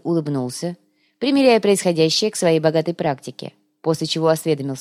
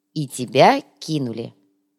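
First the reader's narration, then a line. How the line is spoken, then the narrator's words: Stern remark. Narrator (Russian): строго заметил Биджар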